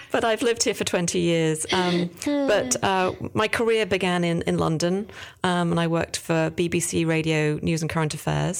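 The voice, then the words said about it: Non-New Jersey, likely British accent. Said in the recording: “you can probably tell from the accent that I'm not a native New Jerseyan”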